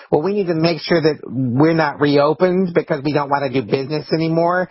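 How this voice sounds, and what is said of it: Whiny Karen impression. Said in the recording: “That's a good impression, too. ... a Karen.”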